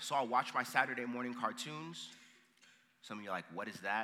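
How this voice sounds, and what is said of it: Usual voice. Nothing is said of it.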